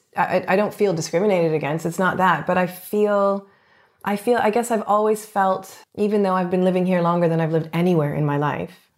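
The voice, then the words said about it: Foreign accent. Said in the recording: “I have an accent. ... people see me as foreign, because I am.”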